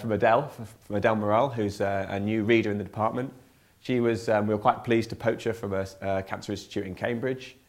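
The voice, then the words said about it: Voice slightly congested from cold. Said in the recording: “Excuse me, I've got a bit of a cold.”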